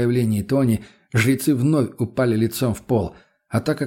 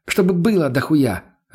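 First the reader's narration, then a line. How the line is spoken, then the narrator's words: Snapping. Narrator (Russian): огрызнулась та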